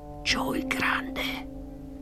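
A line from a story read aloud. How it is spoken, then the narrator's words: Whispered. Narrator (Italian): egli sussurrò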